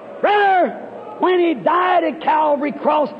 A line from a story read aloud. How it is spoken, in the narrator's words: he cried